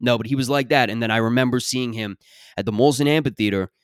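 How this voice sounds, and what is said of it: Usual voice. Nothing is said of it.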